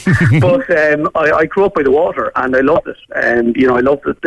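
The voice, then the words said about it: Cork Irish accent, somewhat softened. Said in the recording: “I grew up in Monkstown and Cork ... the Dublin style of life was probably blunting my accent a bit”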